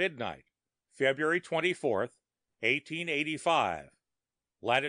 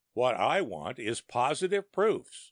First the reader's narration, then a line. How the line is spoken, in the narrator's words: I cried out in exasperation